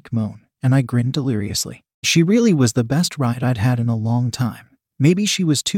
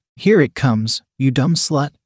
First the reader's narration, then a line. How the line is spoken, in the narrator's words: I said